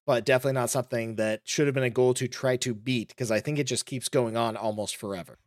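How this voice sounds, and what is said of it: Unwell, off-sounding voice. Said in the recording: “if my voice sounds off, it's because I am currently sick right now, recovering.”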